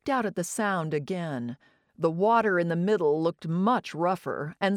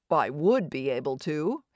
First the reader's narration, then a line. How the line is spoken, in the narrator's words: he said